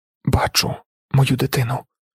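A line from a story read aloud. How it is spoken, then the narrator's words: Whisper. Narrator (Ukrainian): прошепотіла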